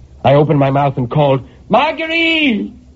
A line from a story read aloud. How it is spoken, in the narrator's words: I screamed, and my voice inside that box took on such a hollow sound that it frightened me